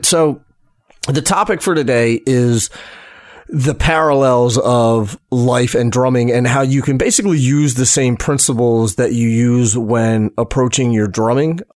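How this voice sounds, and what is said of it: Stuffy, muffled congested voice. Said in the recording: “I sound a little weird today, I got some allergy stuff going on. I feel like my head is underwater. So if I sound a little weird”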